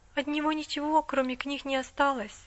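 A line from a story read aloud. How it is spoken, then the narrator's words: Timid. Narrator (Russian): робко сказала миссис Мёрфи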